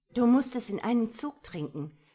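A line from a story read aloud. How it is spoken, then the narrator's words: Unusually sharp command. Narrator (German): befahl mir Franziska mit ungewohnt scharfer Stimme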